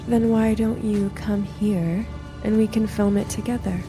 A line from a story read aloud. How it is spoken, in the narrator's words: I said in the most seductive voice I could muster